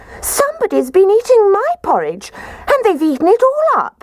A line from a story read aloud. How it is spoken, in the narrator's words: Baby Bear positively squeaked when he said